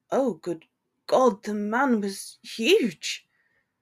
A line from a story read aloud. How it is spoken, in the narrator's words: Hermione gasped